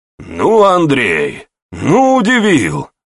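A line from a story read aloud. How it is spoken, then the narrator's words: Older man's exclamation. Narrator (Russian): воскликнул дядька Кондрат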